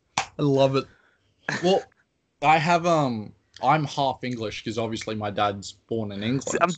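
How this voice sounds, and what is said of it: Australian accent with slight posh English hint. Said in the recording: “clearly it's an Australian accent, but every so often ... it's certain words, there's like a certain like Englishness to it ... like a little like hint of it ... it's a very weird accent ... I thought you were from like some posh like UK city, like from Cambridge ... a little hint to it ... with certain pronunciation of certain words”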